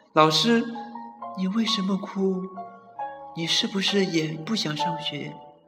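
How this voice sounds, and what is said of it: Quiet, hushed voice. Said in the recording (Chinese): “小声的问”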